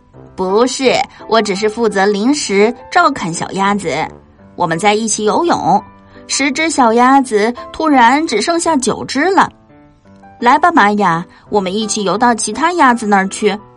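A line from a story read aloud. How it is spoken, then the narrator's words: Laughing. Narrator (Chinese): 安东尼亚笑了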